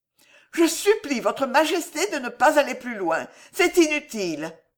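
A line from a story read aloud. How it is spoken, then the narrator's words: Cry out. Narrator (French): s'écria Alice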